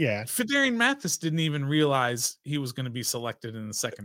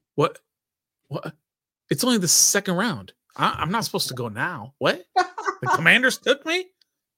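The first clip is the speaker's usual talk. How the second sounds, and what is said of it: Imitates another person's voice. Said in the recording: “do an impression of Fedarian Mathis when he was drafted by the Commanders”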